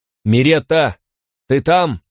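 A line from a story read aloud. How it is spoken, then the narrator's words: Loud repeated calling. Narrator (Russian): громко спросил он 3-4 раза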